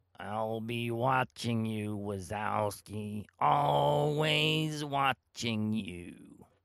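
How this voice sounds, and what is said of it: Poor impression of Monsters, Inc. office manager. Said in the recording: “He was like the manager, you know, the office manager. ... Like from the movie Monsters, Inc. ... that impression, which by the way was probably terrible ... that impression was terrible, and it made me cough and hack”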